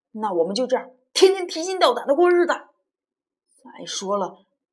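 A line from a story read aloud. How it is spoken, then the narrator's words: Bold angry roar. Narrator (Chinese): 李远呢，却一反平常的怯懦，冲着梅德大吼道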